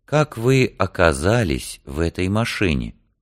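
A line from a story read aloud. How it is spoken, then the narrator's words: Slow gentle question. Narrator (Russian): Олсен спрашивал медленно и мягко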